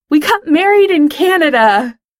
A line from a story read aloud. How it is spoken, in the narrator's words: Over all the teenies screaming, Pete yells into the mic